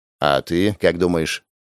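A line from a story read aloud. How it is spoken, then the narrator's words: Quiet question. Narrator (Russian): тихо поинтересовался Гоша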